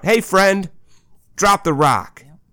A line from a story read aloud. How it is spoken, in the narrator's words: shout